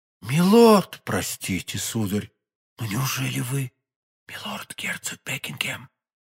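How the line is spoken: In an undertone. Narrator (Russian): вполголоса проговорила госпожа Бонасье

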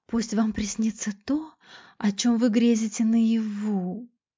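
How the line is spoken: Breathy whisper over phone. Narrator (Russian): Виолетта с придыханием шептала в трубку

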